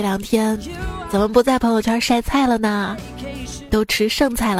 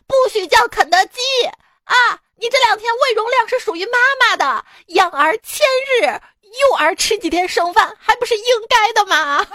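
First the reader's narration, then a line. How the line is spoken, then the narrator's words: Hysterical shouting. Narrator (Chinese): 那个大姐歇斯底里的喊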